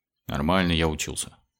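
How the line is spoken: Mock-offended grumble. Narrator (Russian): буркнул тот, разыгрывая легкую обиду

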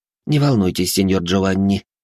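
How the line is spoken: Snort. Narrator (Russian): хмыкнул я

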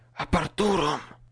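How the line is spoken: Whisper. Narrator (Russian): прошептал я

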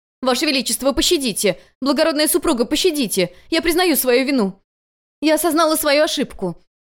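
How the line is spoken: Screaming. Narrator (Russian): она кричала

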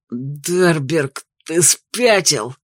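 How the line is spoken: Mumbling through broken lips. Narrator (Russian): прошамкал разбитыми губами Харви

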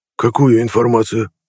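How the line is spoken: Hoarse, dragon-like. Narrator (Russian): Хрипло, почти как дракон, спросил Нед

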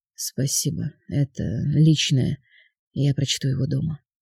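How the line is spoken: Hollow, muffled voice. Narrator (Russian): глухо произнес

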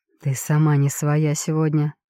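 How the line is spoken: Hoarse voice. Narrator (Russian): произносит он хрипло

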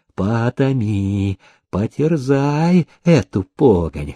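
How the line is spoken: Whispered. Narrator (Russian): шептал он

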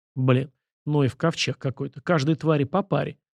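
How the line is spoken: Grumbling to himself. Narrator (Russian): проворчал про себя Сашка

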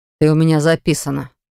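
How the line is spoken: Muttered. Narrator (Russian): пробурчал

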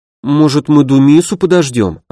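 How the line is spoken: Timid suggestion. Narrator (Russian): робко предложила Мирослава

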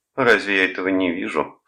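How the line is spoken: Snorting. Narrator (Russian): фыркнула она

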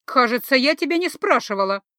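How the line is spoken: Irritated bark. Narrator (Russian): раздраженно рявкнула я

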